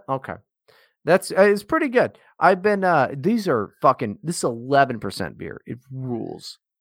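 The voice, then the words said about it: Slightly slurred drunk speech. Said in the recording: “I didn't realize how fucking drunk I am now at this point. I'm not slurring my words, am I? ... A little bit.”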